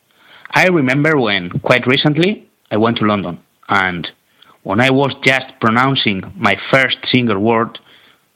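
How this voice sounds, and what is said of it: Spanish accent. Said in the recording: “from Spain ... because of my accent”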